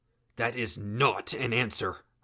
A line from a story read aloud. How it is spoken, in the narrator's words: I growled the words